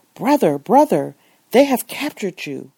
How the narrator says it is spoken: the excited Moroccan exclaimed

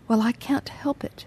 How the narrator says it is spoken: she faltered

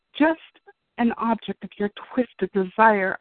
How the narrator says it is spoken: I screamed in my head

